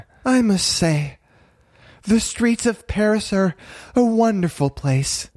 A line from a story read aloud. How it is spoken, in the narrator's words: Mary said dreamily